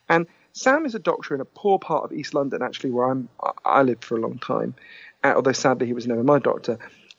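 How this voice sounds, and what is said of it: Posh British accent. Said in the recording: “as you can tell from my weird Downton Abbey accent. I'm British”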